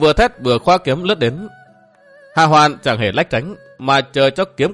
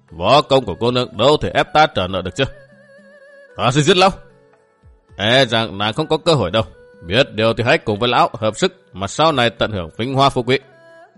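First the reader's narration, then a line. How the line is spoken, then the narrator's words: Scoffing, dismissive. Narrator (Vietnamese): Hà Hoàn cười khẩy nhún vai nói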